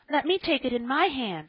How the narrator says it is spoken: screamed Joel

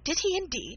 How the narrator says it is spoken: cried Marianne, with sparkling eyes

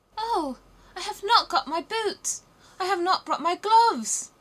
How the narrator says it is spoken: cried little Gerda

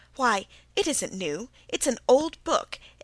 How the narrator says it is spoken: exclaimed Felicity

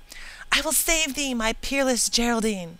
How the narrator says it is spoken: exclaiming

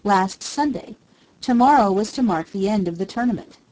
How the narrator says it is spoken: the judge answered

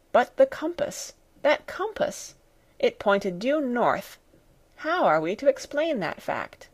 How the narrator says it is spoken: I could hear my uncle murmuring

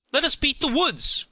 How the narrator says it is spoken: cried several at once

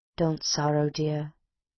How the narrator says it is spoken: she heard him softly say

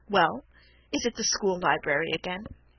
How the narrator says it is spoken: after we had sat for a few minutes in wretched silence, he said with a chuckle

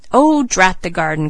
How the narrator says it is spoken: cried Mr

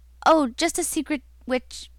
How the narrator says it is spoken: my uncle stammered

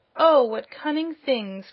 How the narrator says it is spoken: cried Dorothy

